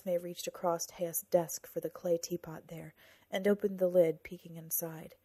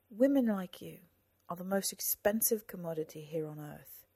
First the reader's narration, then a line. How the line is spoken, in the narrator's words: Nesme said